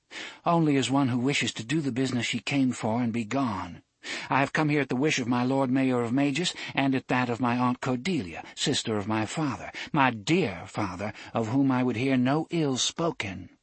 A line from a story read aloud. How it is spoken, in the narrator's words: Susan replied evenly